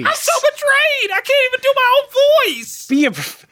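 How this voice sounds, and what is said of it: High-pitched tearful whiny voice. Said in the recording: “take it down a couple octaves... clenched jaw, tearful”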